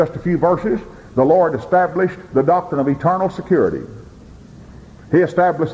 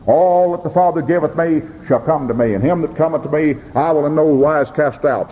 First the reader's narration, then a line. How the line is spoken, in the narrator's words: said